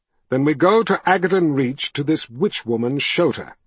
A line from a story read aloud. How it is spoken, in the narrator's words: he said in an even voice